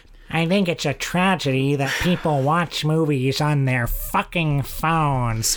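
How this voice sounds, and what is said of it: Imitates another person's voice. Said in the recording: “Who am I doing an impression of? ... David Lynch.”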